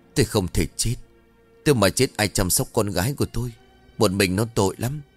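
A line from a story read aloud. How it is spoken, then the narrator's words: Trembling, childlike guilty voice. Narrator (Vietnamese): Bà Thục bộ dạng như một đứa trẻ phạm lỗi đang chịu án phạt, giọng run rẩy bảo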